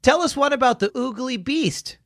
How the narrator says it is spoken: Charlotte pleaded

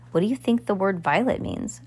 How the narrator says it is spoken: Klaus muttered

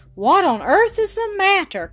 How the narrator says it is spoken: cried Jean

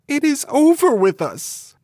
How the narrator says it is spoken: Gretel cried with bitter tears and said to Hansel

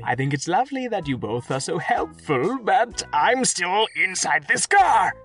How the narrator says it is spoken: cried Abacus

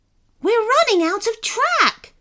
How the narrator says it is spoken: shouted Sebastian

